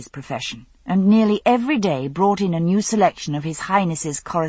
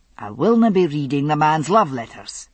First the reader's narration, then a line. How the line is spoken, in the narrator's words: he said firmly